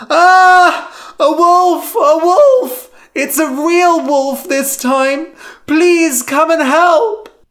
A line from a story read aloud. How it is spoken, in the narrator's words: Lyman screamed